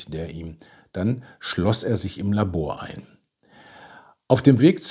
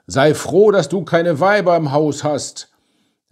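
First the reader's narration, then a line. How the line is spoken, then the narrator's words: Called out. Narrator (German): Jensen rief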